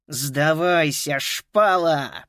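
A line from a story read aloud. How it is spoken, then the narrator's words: Growl. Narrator (Russian): прорычал Скинни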